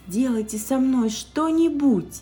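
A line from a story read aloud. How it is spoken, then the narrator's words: Pleading. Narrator (Russian): взмолилась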